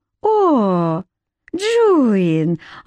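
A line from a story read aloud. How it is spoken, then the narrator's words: Tender call. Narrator (Russian): ласково окликнула ее Кейт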